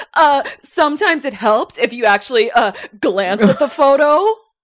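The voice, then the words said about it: Smartass actor impression. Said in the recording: “he's a super Nick Cage smartass ... that was a good impression ... It was my Nick Cage impression.”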